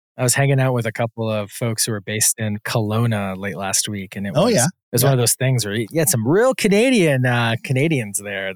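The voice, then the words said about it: Wisconsin, Upper Midwest accent. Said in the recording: “I'm also from Wisconsin, so I have I call it a Southern Canadian accent”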